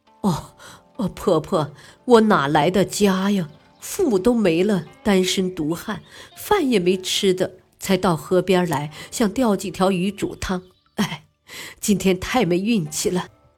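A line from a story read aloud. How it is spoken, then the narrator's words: Wry, bitter reply. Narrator (Chinese): 韩信苦笑着答道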